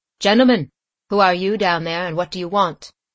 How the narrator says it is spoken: speaking in a calm, clear voice, said

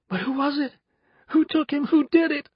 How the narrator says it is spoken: sobbed

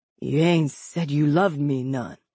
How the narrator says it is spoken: he whispered finally

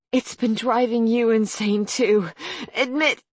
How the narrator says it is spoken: Harper cut off with a moan as a contraction seemed to slam into her womb

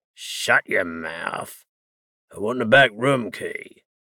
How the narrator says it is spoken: Cassian's captor growled

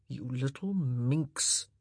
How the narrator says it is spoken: he murmured

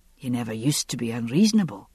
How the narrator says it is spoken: he said quietly

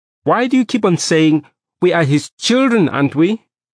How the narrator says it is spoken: my mother said angrily

